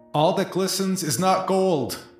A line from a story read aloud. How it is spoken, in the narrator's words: yell quickly